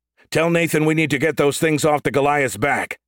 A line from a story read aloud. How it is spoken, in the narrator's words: Hayden shouted